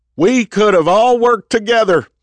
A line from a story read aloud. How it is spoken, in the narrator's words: Jack yelled